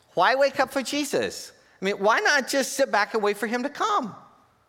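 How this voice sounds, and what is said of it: Childlike second-grader voice. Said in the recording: “in your second grade voice”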